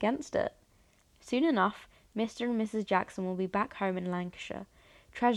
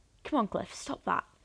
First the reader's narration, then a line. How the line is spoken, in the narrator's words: mumbles when the dog tries to climb on the counter